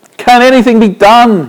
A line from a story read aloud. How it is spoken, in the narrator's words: he cried